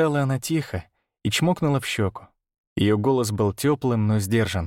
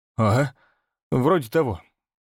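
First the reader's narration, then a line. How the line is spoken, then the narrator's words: Grumbled reply. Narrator (Russian): буркнул в ответ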